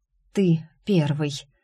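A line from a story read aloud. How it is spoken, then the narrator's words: Breathed out. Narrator (Russian): выдохнула я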